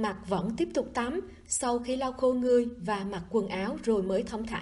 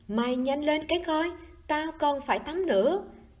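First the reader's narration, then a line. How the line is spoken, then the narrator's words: Yelling. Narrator (Vietnamese): Lý Viễn Hàn la hét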